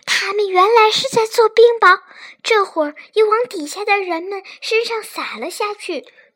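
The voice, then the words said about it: Excited whisper. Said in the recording (Chinese): “詹姆斯激动的小声说”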